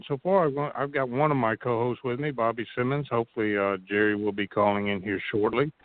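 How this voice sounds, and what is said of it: Scratchy, strained voice. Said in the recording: “my voice is gonna fade in and out. I've got a scratchy throat.”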